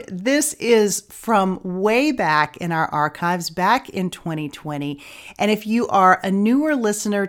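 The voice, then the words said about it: Voice sounds slightly sick. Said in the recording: “you can hear from my voice today that I am a little bit under the weather”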